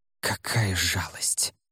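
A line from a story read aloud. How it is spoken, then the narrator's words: Hissed. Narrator (Russian): прошипел господин Ло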